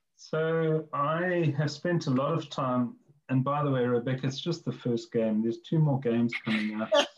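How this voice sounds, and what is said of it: South African accent. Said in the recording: “you are South African. You have a wonderful South African accent”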